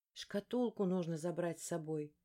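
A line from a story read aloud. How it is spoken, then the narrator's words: Thoughtful mutter. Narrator (Russian): задумчиво пробормотала я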